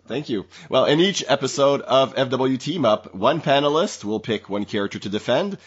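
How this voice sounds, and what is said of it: Scratchy, deeper cold-affected voice. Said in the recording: “my voice is a little scratchy ... I caught a cold, and so you get to have the more bassy”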